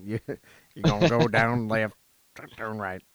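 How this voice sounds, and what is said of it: Exaggerated American Southern accent. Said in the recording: “the most southern accent.”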